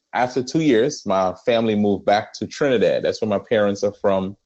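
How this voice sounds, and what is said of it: Speaks with a noticeable accent. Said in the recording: “you'll hear this throughout the podcast. I have an accent.”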